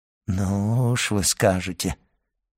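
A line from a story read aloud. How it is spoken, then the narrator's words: Joyless drawl. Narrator (Russian): протянул Данглар, невесело улыбаясь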